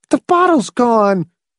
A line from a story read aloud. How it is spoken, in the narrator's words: wailed